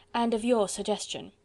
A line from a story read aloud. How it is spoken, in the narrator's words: rejoined the other quietly